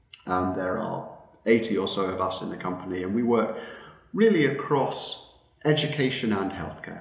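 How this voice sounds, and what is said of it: British accent. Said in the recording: “As you can tell from my accent, I am originally from the UK”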